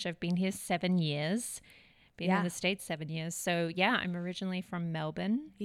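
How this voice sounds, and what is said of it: Slight Australian accent. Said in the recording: “you've got this bit of an accent... I'm from Melbourne, Australia”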